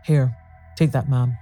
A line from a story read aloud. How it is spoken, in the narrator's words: he said